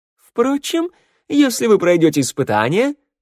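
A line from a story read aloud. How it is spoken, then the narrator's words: Cheerful interjection. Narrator (Russian): бодро вклинился красавчик Валет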